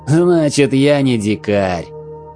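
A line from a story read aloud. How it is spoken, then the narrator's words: Leader's hearty laughter. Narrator (Russian): предводитель Гитаи весело расхохотался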